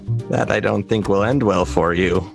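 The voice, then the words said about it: Laughing character voice. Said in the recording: “laughs in his little Rhodian voice”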